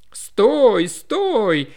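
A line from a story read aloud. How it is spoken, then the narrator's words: Shouting. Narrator (Russian): закричала Алисия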